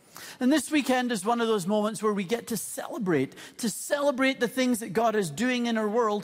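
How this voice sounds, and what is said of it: Mixed, hard-to-place accent. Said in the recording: “my family's journey to Canada includes Scotland, Ireland, England, Switzerland, the United States, the Netherlands ... some of you may find my accent a little hard to place”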